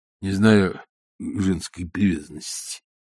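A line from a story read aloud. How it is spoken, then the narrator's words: Stifled, choked voice. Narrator (Russian): заметил Корейка спертым голосом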